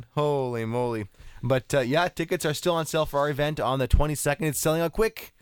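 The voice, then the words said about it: Hoarse, coarse voice. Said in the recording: “My voice is still coarse from screaming”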